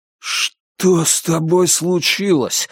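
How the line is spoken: Forced out, strained. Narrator (Russian): выдавил я

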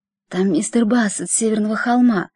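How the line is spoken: Whisper. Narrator (Russian): прошептала тетушка

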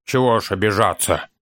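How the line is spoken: Grumbling dwarf. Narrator (Russian): проворчал гном

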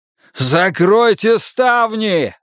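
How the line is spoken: Desperate shout. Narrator (Russian): в отчаянии закричал Волк

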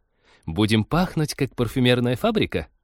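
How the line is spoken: Giggling. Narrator (Russian): хихикнула Полина

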